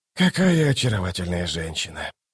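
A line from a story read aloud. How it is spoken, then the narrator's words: Quiet hooting exclamation. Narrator (Russian): тихо ухнул он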